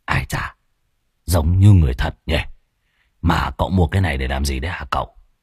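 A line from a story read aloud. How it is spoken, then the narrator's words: Muttering. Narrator (Vietnamese): Lão Muôn Phọt ròm ròm, lẩm bẩm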